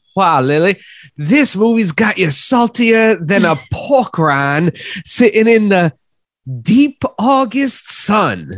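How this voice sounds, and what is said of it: Put-on accent. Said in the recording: “I'm going to be doing this accent the entire time.”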